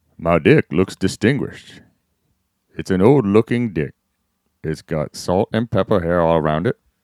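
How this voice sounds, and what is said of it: Morgan Freeman impression. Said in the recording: “Read this line in your best Morgan Freeman voice.”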